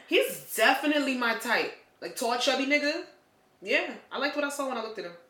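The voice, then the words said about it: East Coast accent. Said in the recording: “Why do you sound like you belong on the Long Island Railroad? ... an East Coast accent. ... Sound like you in a Spike Lee movie.”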